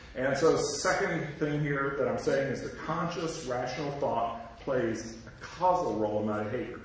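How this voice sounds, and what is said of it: Southern US accent. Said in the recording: “I'm a Southerner. Some of you can probably hear from my accent.”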